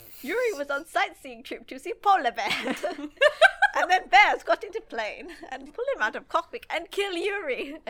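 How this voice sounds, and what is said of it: Bad put-on Russian accent. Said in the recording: “that was my terrible Russian accent”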